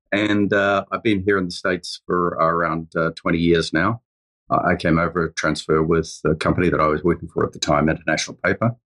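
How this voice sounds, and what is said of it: Slight New Zealand accent. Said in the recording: “I come from New Zealand originally. You can probably hear a little bit of an accent there.”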